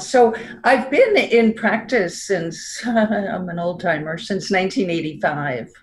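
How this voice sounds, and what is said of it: New York accent. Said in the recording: “I still have my New York accent”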